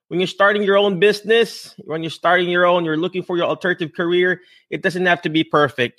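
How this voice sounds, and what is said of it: Non-native English accent. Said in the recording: “Do you think I have a perfect English, perfect accent, perfect this and that? No ... what is your accent, Michael?”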